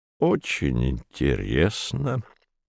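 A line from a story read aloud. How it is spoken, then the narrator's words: Calm. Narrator (Russian): произнес капитан Квотерблат спокойно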